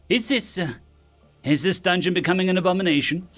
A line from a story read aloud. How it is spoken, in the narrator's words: Someone asked in a serious tone